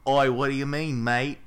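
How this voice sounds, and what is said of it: Bad fake Australian accent. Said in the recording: “Australian accents? ... That's bad. ... It's really bad.”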